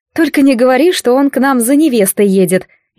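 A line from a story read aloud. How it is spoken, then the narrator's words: Nervous laugh. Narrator (Russian): нервно хохотнула я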